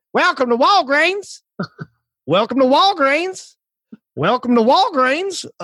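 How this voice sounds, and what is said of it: Imitated Southern accent greeting. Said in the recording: “It was like, welcome to Walgreens, a Southern accent.”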